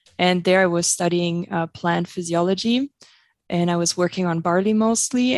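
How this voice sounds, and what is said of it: German accent in English. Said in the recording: “you probably heard it. I have an accent... I'm actually originally from Germany”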